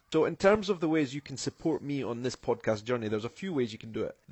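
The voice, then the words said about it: Scottish accent. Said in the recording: “plenty of Scottish accent goodness right here on the podcast”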